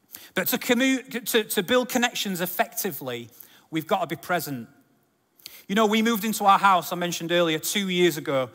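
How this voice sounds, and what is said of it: Sheffield English accent. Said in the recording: “we previously lived in Sheffield. You tell by the accent,”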